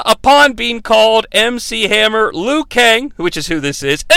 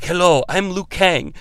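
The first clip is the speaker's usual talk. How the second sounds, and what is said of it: Strange put-on accent. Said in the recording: “I'm doing a very strange accent, by the way, even though I'm from Canada.”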